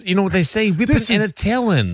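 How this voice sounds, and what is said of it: Cartoon character voice. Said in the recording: “What was that accent? ... He's doing a Bugs Bunny. ... that Bugs Bunny range”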